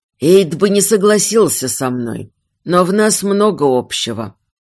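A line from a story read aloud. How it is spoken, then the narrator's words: Weary, hopeless voice. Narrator (Russian): продолжил отец все тем же утомленным голосом человека, придавленного каменной скалой, из-под которой он не надеется выбраться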